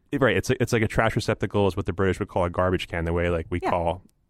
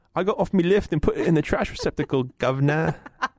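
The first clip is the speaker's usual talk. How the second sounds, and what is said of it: Put-on Cockney accent. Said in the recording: “It's a little British. ... you can do your little Cockney accent.”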